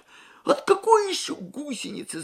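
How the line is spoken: Alarmed wail. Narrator (Russian): завопил Юрий, предчувствуя недоброе

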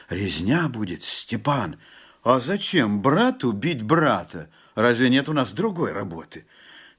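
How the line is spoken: Frightened whisper. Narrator (Russian): Жапак только прошептал в страхе

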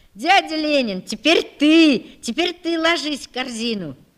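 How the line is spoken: Boys shouting. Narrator (Russian): мальчики закричали

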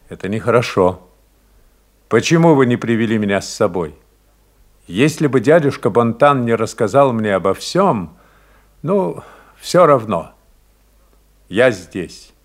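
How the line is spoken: Calm, almost stern. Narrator (Russian): Доминик спокойно, почти сурово сказал

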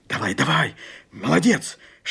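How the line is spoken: Whisper. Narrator (Russian): шепнул Степан

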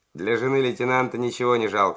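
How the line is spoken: Cheerful. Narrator (Russian): весело проговорил Зубарев

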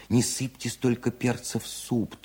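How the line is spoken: Thin pleading voice. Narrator (Russian): тоненьким голосом просила Бакунина

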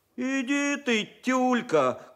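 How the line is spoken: Shout while running. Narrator (Russian): крикнул второгодник Борька Кулаков на бегу

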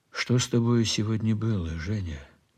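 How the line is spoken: Gentle question. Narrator (Russian): спросил ласково

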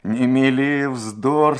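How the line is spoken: Laughing loudly. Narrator (Russian): сказал я, громко смеясь

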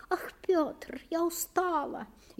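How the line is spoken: Thin plaintive moan. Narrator (Russian): еще тоньше простонала она

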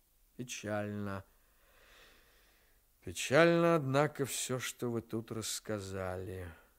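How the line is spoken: Drawling. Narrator (Russian): наконец протянул Ремез

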